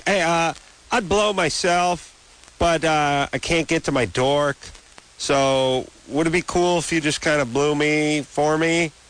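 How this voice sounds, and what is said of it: Cartoon character voice. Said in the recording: “That was a Rocky Bullwinkle impersonation?”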